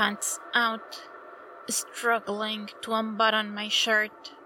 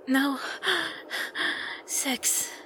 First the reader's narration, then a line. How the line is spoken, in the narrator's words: he pants out